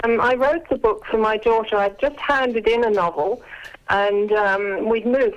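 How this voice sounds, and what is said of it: Slight British accent. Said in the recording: “we can all hear that you were born in the UK ... I haven't lost my accent, have I? There's a little bit there still.”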